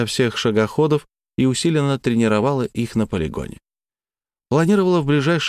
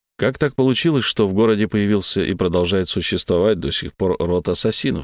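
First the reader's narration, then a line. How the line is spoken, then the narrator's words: Plain question. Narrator (Russian): спросил я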